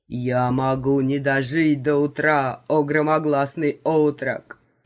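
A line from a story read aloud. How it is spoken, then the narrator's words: Gloomy old man, between moans. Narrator (Russian): Прервав на секунду свои стоны, мрачно сообщил старик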